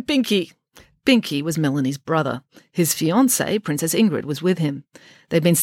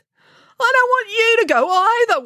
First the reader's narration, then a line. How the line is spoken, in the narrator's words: wailed Binky